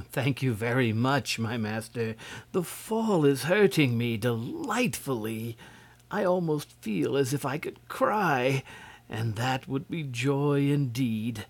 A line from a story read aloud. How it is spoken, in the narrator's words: gave a happy little laugh and said to the prince gratefully